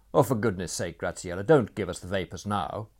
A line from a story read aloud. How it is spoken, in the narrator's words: snapped Franz